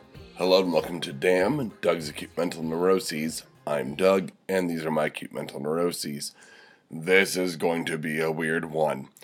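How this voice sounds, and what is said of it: Congested, stuffy head-cold voice. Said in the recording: “you can probably hear it, I've got a head cold ... stupid head cold. Right there, you can hear it. I'm still suffering.”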